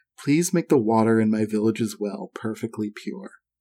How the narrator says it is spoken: you whisper

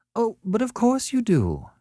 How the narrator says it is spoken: she went on sweetly

